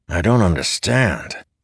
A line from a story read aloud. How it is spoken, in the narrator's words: Layton said, his voice barely audible over the thunder